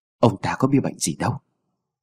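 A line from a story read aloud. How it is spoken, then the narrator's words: Very quiet voice. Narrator (Vietnamese): lão ta cũng chỉ dám nói rất khẽ với Mụ Tâm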